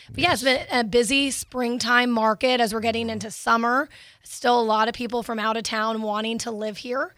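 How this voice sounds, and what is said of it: Strained, hoarse voice. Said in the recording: “I'm losing my voice”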